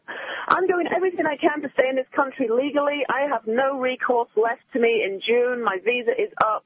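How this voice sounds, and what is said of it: British accent. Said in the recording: “I'm British ... I can tell from your accent”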